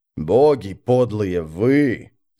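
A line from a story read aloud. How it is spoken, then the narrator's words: Hiss. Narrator (Russian): зашипел Быстрый Бен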